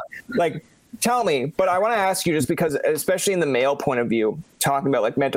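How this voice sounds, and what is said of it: Usual voice. Nothing is said of it.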